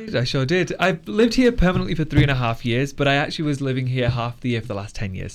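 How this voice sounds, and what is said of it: English South Yorkshire accent. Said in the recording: “I have a really good English accent ... I'm from England. I'm from South Yorkshire. ... People are getting really confused by my accent because I've lived in America for a while.”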